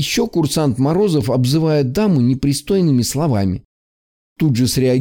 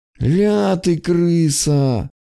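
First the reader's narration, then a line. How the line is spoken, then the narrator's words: Silent lip-hiss. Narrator (Russian): прошипел я одними губами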